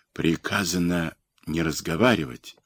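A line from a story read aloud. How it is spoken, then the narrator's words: Whispered through crowd. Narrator (Russian): шепотом передавали в толпе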